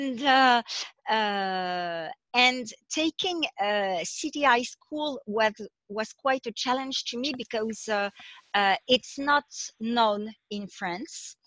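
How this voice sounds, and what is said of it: French-accented English. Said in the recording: “I'm French, if my accent didn't betray me yet.”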